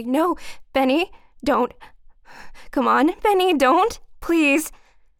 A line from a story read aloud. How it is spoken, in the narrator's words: Ellen saying frantically